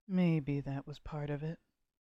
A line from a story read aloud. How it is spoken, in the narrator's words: more quietly